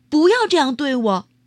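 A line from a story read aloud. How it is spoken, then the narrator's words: Loud, indignant. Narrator (Chinese): 受到不礼貌对待时，我会大声说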